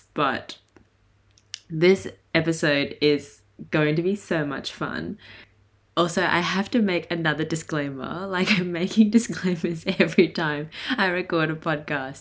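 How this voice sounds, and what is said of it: Raspy voice. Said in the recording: “my voice is kind of raspy like this”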